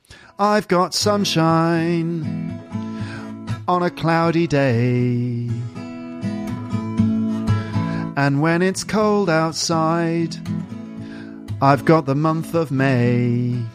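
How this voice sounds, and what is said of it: Singing in an English accent. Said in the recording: “now let's try it with my English accent.”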